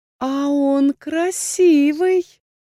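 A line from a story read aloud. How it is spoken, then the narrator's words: Seductive smiling drawl. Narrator (Russian): Дендра соблазнительно улыбаясь инквизитору, протянула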